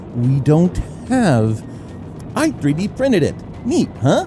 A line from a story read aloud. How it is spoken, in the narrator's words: Rue giggled cheerfully